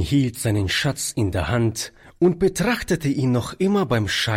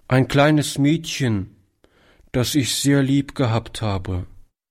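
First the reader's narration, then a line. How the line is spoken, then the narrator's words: Boy's deep sigh. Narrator (German): antwortete der Junge mit einem tiefen Seufzer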